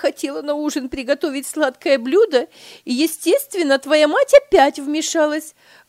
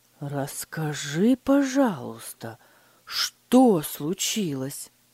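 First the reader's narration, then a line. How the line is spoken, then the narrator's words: Gentle, restrained question. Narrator (Russian): мягко спросил Фридрих, стараясь сохранить спокойствие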